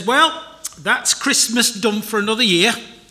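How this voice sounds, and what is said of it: Attempted Yorkshire accent. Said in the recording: “I can't do a Yorkshire accent very well, unless I'm talking to somebody from Yorkshire, and then it comes naturally”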